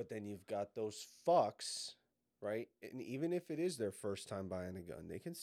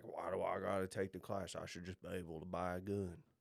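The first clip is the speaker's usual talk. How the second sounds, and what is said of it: Put-on Southern US accent. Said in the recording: “Why'd they immediately have a southern accent?”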